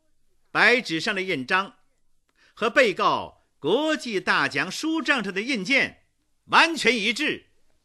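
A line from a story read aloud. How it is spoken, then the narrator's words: Loud announcement. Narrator (Chinese): 周若冰大声地宣告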